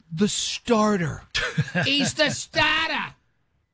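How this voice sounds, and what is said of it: Imitated New England accent. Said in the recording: “I never heard an accent so insane in my life ... it's New England ... one annoying accent after the other”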